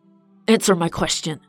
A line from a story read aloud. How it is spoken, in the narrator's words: Kyle snapped